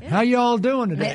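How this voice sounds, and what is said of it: Put-on Southern American accent. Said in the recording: “is that a Southern accent you have now?”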